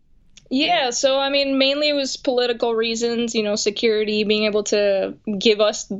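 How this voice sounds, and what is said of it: Venezuelan accent. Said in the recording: “obviously we can hear the accent”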